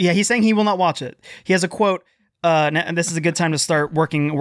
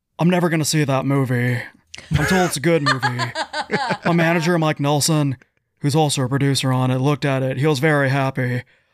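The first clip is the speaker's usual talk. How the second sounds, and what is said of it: Imitates another person's voice. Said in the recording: “my Nicolas Cage impression ... That's actually pretty damn good ... Spot on.”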